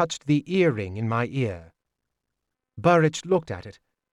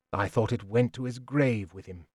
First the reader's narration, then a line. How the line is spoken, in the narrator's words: more quietly